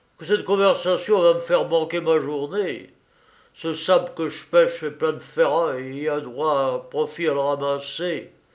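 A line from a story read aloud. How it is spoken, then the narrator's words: Grumbling. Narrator (French): grommela-t-il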